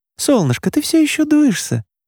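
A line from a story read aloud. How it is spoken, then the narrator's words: Tender, guilty mother. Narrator (Russian): Голос мамы звучал ласково и виновато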